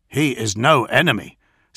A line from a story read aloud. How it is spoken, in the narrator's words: said Alexis Pollux firmly